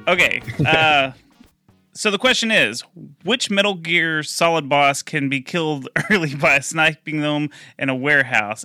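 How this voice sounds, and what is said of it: British accent. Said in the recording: “your fucking British accent”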